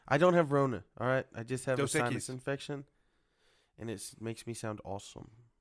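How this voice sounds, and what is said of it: Nasal, congested voice. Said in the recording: “You sound a little nasally.”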